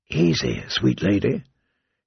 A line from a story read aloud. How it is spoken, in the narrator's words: said in a soft voice